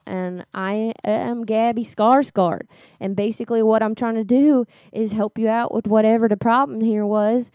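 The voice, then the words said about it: Southern American accent. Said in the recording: “You have an accent. ... originally from Louisiana. ... you sound like Atlanta. ... You sound like from the Atlanta area.”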